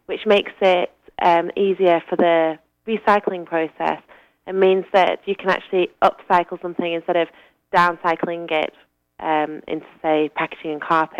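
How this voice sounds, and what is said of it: Northern English accent. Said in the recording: “where does your accent come from? ... I'm from the north of England originally.”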